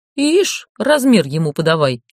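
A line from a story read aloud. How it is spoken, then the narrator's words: Snorting. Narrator (Russian): фыркнула Ольга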